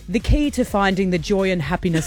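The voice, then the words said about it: Put-on posh British accent. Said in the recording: “I'm doing it in a British... Is this your posh British accent?”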